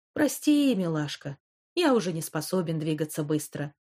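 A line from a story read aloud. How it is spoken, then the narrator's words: Sighing. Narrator (Russian): вздохнул Альф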